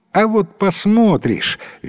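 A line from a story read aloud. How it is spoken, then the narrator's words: Cheerful exclamation. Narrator (Russian): весело воскликнул Джастик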